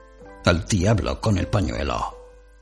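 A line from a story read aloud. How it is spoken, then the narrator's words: Disdainful tone. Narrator (Spanish): dijo Walter Mitty con tono desdeñoso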